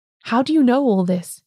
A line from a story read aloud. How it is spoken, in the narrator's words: He cried